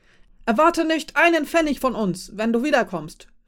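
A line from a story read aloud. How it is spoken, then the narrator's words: Shouting. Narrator (German): schrie er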